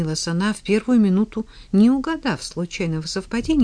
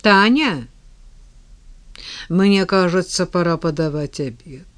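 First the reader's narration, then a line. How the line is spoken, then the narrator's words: Dull muffled voice. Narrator (Russian): сказал глухим голосом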